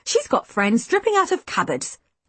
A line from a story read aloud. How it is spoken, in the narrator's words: I scoffed